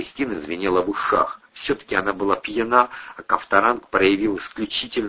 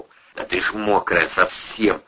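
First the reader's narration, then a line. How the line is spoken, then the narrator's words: Reckless growl. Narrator (Russian): рычал Растопира, утратив всякую осторожность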